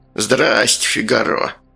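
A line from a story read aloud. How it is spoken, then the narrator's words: Creaky voice. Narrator (Russian): проскрипел Сальдо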